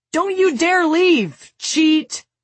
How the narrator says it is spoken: Peter stands where he is in the kitchen, shouting

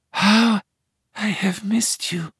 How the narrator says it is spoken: she sighs

